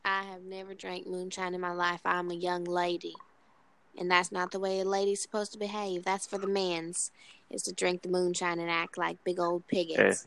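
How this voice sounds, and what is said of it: Put-on Southern US accent. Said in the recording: “accent's actually pretty good ... Talk with the southern accent.”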